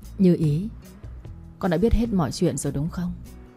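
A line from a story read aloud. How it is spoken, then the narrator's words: Softer father's voice, slightly choked. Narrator (Vietnamese): Giọng bố nhẹ hơn, có chút nghẹn ngào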